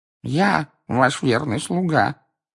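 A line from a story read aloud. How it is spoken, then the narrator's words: Sullen grumble. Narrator (Russian): угрюмо пробурчал хвост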